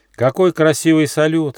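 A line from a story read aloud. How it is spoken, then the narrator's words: Joyful shout. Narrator (Russian): радостно закричал Почемучка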